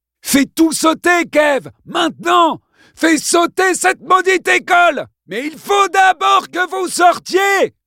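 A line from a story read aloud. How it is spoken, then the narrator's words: Yelled into a phone. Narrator (French): hurla Kevin dans l'appareil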